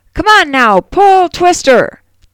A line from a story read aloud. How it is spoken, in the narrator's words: The farmer yells